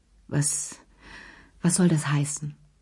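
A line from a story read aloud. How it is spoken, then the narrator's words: Stammering. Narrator (German): stammelte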